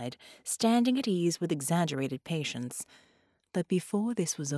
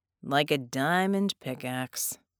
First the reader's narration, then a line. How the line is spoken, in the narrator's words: Red sighed